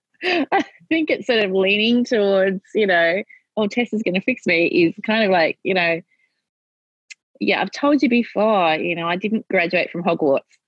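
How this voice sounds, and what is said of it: British-sounding accent. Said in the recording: “Sound like you graduated from Hogwarts ... You got the accent.”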